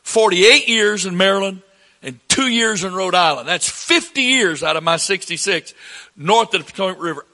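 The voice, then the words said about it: Southern American accent. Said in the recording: “I don't know why I still have this accent ... somebody with this accent ... everybody with a southern accent's ignorant”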